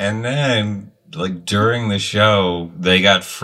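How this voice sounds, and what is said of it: Usual voice. Nothing is said of it.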